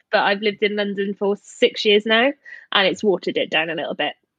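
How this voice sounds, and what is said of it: Soft South Welsh accent. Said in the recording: “very Welsh ... I'm from South Wales, which is the slightly softer side of the accent”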